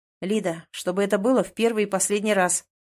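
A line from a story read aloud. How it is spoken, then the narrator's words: Stern. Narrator (Russian): произносит строго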